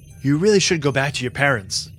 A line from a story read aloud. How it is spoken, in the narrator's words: said Lieutenant Carreras